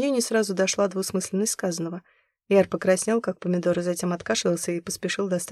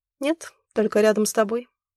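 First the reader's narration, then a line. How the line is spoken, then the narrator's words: Calm answer. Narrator (Russian): спокойно ответила Зима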